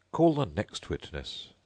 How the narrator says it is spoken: he added in an undertone to the Queen

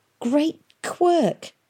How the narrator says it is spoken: gasped Tom

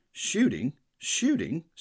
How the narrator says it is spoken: sputtered Sir Harry

